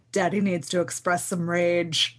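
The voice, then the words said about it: Imitates a character's sudden serious voice. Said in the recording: “Deadpool when he gets super serious all of a sudden ... That was a great impression.”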